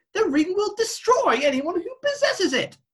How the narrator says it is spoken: Loki yelled back

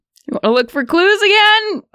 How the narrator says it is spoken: She yells at you

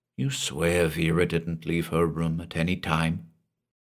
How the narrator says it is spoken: I whispered to him

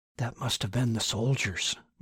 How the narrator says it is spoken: Martin whispered

